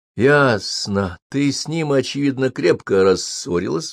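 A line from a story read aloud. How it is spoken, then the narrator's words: Sighing. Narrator (Russian): вздохнул я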